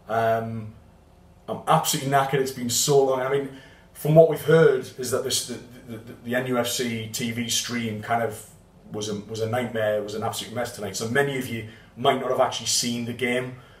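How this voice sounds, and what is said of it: Hoarse, worn-out voice. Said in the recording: “My voice is very hoarse”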